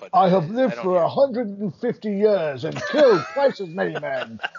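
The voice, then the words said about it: Imitates another person's voice. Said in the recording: “my Hemsworth impression”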